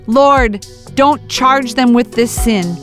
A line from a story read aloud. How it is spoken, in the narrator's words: He shouting